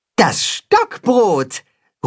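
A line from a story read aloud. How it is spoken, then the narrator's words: Cat-hen calling. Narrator (German): ruft das Katzenhuhn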